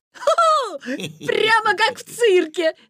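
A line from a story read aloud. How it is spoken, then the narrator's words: Laughing. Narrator (Russian): засмеялся Витя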